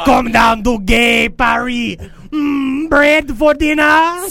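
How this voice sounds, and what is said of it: Exaggerated mock French accent. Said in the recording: “Jerry Lewis did a better French impression.”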